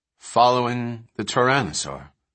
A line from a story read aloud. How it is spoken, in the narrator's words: Malcolm sighed